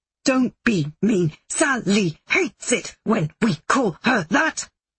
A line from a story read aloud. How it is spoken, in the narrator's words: the Angelica head, melded onto a flabby thigh with wrists where its ears should be, grunts back in Axel's voice